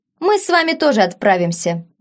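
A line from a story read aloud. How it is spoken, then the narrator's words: Cheerful. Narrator (Russian): весело проговорил Фабиан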